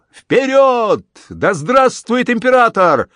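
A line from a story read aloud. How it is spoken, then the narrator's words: Battle cry. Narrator (Russian): Он прокричал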